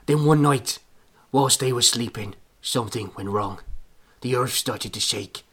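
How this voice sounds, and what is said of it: Put-on Irish accent drifting Yorkshire. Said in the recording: “my Irish accent, which is really getting away from me now ... It's getting more authentic ... Turning Yorkshire”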